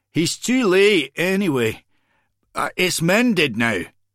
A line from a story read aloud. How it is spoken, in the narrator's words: McBain called out